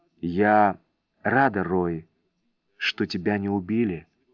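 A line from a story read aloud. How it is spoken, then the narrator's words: Whisper. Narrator (Russian): прошептала она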